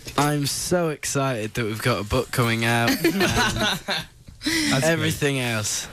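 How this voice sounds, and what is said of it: Very slow, flat speech. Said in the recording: “you're speaking very slow ... in a very slow voice”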